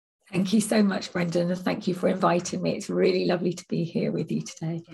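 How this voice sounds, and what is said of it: Slightly croaky voice. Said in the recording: “excuse my voice today. It's a little bit croaky”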